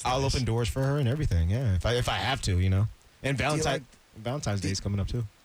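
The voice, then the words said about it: English accent. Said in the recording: “that awesome English accent”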